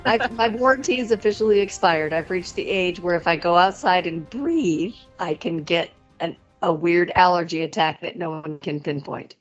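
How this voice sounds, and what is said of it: Raspy hoarse voice. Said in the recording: “I'm a little raspy. I'm about to start my second career as a jazz singer.”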